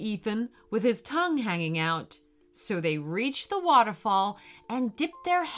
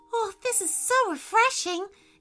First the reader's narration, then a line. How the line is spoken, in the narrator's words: exclaimed Sally